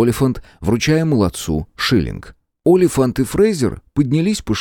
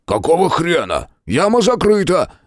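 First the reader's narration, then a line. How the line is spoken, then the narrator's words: Barking fat man. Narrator (Russian): рявкнул толстяк с рыжими бакенбардами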